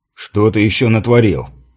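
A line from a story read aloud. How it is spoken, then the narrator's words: Grumbling. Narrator (Russian): проворчал Йенс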